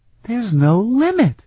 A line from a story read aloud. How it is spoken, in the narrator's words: Flute exclaimed